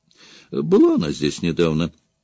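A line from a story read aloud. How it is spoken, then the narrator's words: Thoughtful woman. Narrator (Russian): задумчиво проговорила женщина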